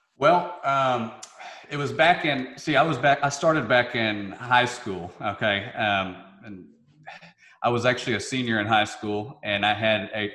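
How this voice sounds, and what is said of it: Southern twang accent. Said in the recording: “the Southern twang ... my hillbilly accent”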